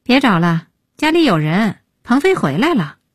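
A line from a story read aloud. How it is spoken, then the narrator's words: Sighing. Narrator (Chinese): 叹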